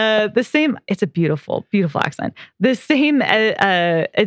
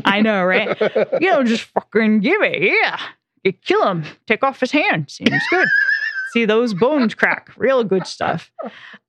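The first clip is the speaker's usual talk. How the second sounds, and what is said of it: American accent drifting toward British. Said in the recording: “What was that accent? ... That's America. ... by way of the UK ... Was impressive. That was nice. ... I know it's bad”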